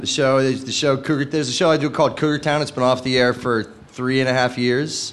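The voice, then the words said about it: Hoarse voice. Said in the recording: “That's why my voice is hoarse.”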